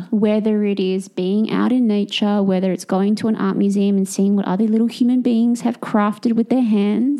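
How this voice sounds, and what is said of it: Strong noticeable accent. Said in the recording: “Sorry, your accent. I was like, more awe? ... We need subtitles.”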